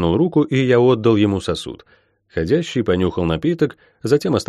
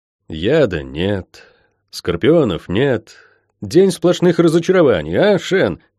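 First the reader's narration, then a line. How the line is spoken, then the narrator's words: With a short laugh. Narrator (Russian): хохотнул я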